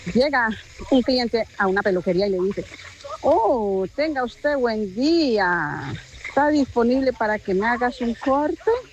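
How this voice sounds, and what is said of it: Clownish put-on Colombian accent. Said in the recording (Spanish): “Este es el acento como que payasín, ¿no? Ese es otro acento colombiano”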